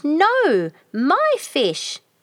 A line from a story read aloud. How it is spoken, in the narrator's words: Choru also screamed